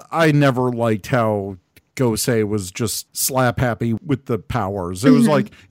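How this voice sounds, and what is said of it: Usual voice. Nothing is said of it.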